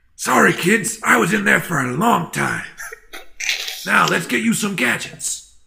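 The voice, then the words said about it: Raspy imitation of another person's voice. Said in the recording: “my impression of Danny Trejo sounds absolutely nothing like a slightly raspier Mitch Hedberg”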